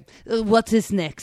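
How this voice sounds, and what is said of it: Mock German accent. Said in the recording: “that was an amazing German accent. That was so amazing.”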